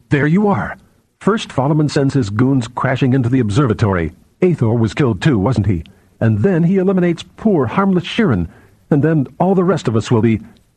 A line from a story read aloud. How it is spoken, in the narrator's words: stared at him more angrily than before and said